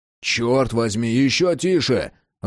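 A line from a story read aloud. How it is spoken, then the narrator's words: Growling raven. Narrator (Russian): рыкнул ворон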